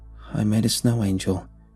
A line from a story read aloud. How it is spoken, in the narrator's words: he stated, calmly, factually